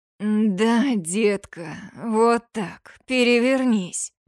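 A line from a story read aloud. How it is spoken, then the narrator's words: Growling male voice. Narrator (Russian): Рычащий голос моего мужчины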